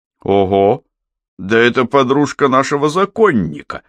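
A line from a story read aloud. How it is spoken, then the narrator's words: Exclaiming. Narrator (Russian): воскликнул Мухаммед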